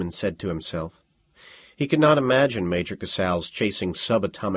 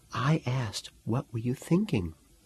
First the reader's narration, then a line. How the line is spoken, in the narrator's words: whispered